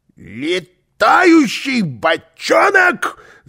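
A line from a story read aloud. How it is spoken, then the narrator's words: Yelling. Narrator (Russian): завопил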